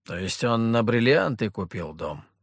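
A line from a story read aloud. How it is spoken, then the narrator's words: Scoffing hmph. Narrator (Russian): хмыкнул Петр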